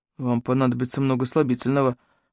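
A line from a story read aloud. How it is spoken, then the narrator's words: Grumbling. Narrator (Russian): буркнул Клэнси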